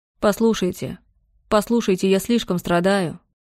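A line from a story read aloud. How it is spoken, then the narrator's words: Quiet repeating. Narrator (Russian): Он тихо повторял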